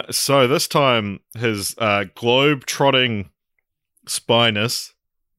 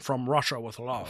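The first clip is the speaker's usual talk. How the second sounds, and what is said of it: Sean Connery impression. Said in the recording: “do a Sean Connery impression?”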